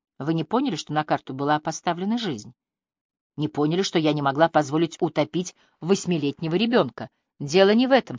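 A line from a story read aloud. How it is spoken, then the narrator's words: Plain. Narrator (Russian): сказал ей Линли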